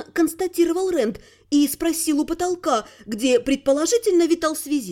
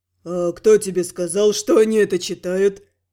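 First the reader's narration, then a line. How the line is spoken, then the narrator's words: Snorting remark. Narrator (Russian): хмыкнула сила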